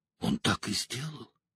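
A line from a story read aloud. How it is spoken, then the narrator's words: Shuddering whisper. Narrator (Russian): прошептала Элейн, содрогаясь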